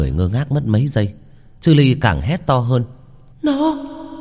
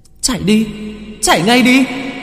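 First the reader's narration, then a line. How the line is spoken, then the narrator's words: Shrieking cry. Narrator (Vietnamese): tiếng của Chư Ly rú lên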